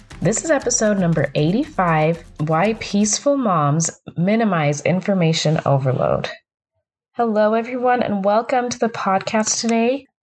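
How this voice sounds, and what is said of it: Lower, slightly hoarse voice. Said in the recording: “I'm getting over a cold, so my voice is a little lower, a little hoarser than usual”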